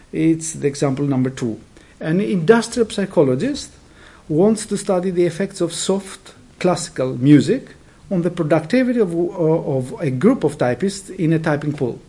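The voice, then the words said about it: Non-native English accent. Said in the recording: “my accent, because it's not by no means a perfect British accent”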